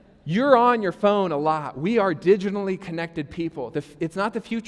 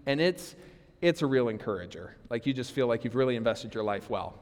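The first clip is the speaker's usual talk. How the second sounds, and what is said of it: Sarcastic tone. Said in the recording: “That was sarcasm,”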